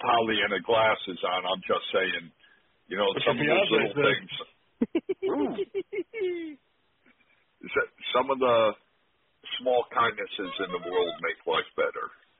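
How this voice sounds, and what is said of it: Voice worn by shouting and smoking. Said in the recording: “Is that your real voice, or are you doing a Jesse Ventura impression? ... that is very close to Ventura ... a life of using a raised voice and smoking too much.”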